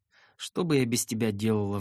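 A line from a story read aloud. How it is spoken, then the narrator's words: Tearful sigh. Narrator (Russian): вздохнула она со слезами на глазах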